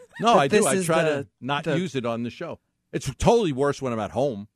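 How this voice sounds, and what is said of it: New York accent. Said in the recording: “hates the New York accent ... I know that I have an accent”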